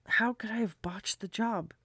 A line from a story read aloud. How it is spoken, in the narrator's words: he muttered